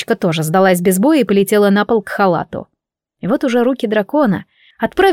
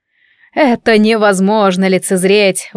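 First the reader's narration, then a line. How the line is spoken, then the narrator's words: Exclaiming. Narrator (Russian): воскликнул Малкольм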